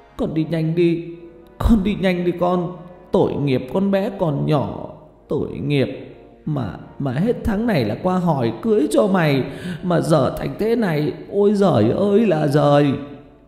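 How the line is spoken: Old woman sobbing. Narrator (Vietnamese): Bà Lệ vừa nói vừa khóc nức nở

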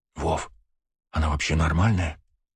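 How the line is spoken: Whispered question. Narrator (Russian): шепотом спросила Ева

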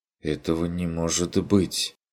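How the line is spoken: Bewildered. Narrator (Russian): растерянно произнесла Лота

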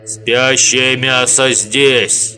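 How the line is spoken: Deep bass. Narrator (Russian): пробасил Ода

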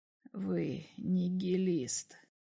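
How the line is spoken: Quiet, almost whispered. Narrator (Russian): сказал он тихо, почти шепотом

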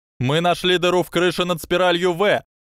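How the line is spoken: Shout through doorway. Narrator (Russian): крикнул в дверной проем

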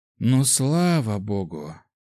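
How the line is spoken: Subordinate sighing. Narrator (Russian): вздохнул подчиненный империи

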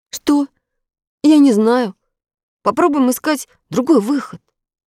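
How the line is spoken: Boy answering uncertainly. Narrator (Russian): неуверенно ответил мальчик

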